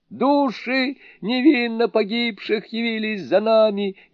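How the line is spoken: Frantic scream. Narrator (Russian): истошным голосом закричали они

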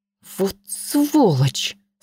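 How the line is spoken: Spat through teeth. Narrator (Russian): сквозь зубы произнесла, как сплюнула Ленка

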